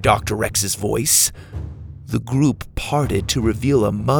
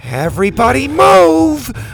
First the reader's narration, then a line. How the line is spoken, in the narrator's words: Bo shouted